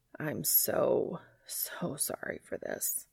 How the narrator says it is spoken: he says weakly

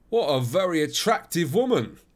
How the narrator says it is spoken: I exclaimed

